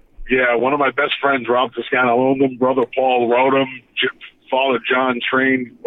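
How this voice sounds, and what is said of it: New York accent. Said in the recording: “He's got the New York accent”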